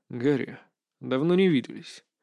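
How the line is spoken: Dry reply. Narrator (Russian): сухо отвечаю

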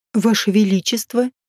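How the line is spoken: Whisper. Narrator (Russian): прошептала я

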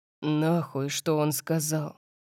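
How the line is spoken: Growled. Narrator (Russian): прорычал Орион

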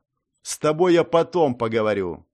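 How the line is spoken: Stern. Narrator (Russian): строго ответил я

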